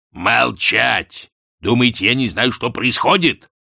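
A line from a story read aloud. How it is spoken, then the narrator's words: Growl. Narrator (Russian): прорычал Астфгл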